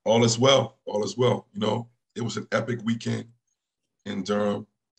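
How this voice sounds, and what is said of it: Scratchy, partly lost voice. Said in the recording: “Excuse my voice. It's still scratchy because I kind of lost it. ... So I sound a little scratchy.”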